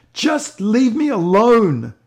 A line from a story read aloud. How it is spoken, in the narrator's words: cried